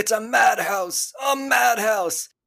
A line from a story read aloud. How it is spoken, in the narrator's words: he's yelling